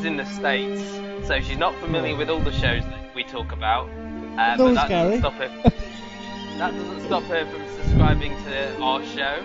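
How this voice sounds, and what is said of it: British English accent. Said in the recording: “she's a sucker for a British/English accent.”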